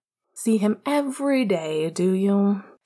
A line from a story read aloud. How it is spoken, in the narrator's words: Sirius scoffed sarcastically, avoiding emotion